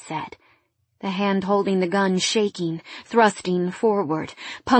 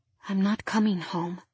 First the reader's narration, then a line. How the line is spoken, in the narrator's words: I said quietly